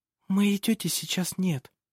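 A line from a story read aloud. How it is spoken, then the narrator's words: Whisper. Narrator (Russian): прошептала она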